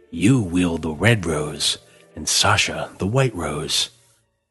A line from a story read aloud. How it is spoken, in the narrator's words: Blackthorne growled